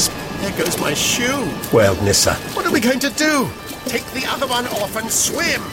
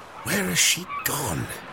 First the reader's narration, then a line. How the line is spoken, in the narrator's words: He murmured